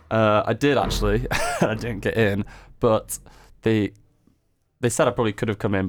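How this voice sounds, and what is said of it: Northern English accent. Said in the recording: “My sexy northern accent.”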